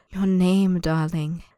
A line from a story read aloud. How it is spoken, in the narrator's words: the man purrs, so soft it feels as if he hasn't spoken the words at all